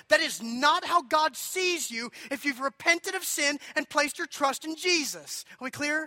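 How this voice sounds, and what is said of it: Yelling. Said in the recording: “I'm sorry for yelling”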